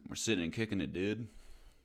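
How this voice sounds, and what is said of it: Poor put-on American accent. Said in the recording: “Can you do an American accent? ... That is my American accent. ... That's really your American accent? ... That's terrible. ... what part of America sounds like the UK?”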